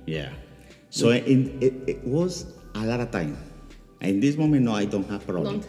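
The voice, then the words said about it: Very different non-native accent. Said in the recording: “you have the accent. Your accent is very different”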